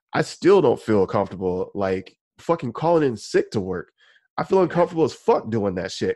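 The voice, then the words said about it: Congested, sick-sounding voice. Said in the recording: “I still sound kind of sick... coughing. I sound super congested.”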